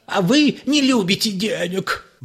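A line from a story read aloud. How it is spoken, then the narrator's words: Flute-like wail. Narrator (Russian): взвыл Ипполит Матвеевич голосом флейты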